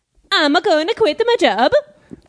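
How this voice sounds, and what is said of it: Comedic Italian-accented character voice. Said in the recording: “I can do voices ... It's kind of like an Italian Borat.”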